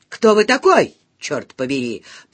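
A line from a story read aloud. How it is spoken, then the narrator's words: Accusatory prosecutorial question. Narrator (Russian): прокурорским тоном вопросила я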